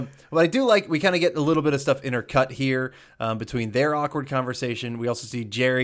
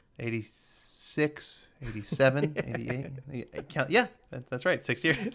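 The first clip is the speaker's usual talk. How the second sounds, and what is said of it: Impression of a sitcom character. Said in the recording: “that was my George impression.”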